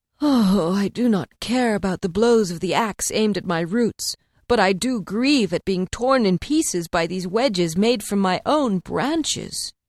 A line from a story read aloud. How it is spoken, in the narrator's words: The oak said with a sigh